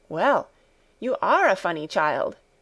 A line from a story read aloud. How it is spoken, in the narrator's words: exclaimed Clara